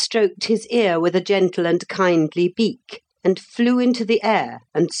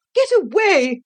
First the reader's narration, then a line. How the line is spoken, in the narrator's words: she cried